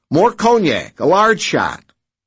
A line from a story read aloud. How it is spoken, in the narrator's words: he barked